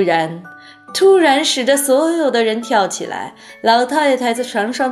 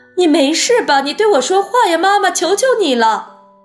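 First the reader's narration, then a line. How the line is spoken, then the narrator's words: Crying out. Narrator (Chinese): 巴克的太太叫道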